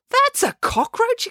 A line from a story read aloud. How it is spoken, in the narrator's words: exclaimed April